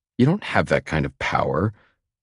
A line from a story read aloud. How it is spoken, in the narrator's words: she scoffs, amused